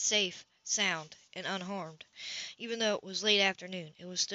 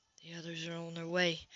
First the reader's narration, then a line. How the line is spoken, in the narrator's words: Nate whispered